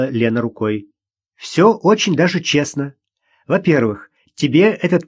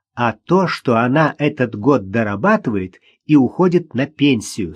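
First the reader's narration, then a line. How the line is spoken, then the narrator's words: Plain. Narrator (Russian): сказала Лена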